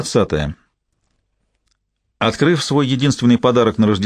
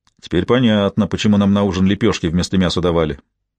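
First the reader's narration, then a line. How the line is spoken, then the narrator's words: Grumbling. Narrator (Russian): проворчал Билли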